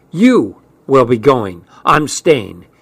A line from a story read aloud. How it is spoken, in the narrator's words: said firmly